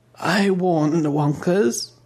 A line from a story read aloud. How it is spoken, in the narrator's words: the old baroness sighed